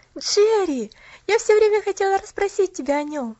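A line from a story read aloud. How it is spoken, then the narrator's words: Exclaiming. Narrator (Russian): воскликнула Поллианна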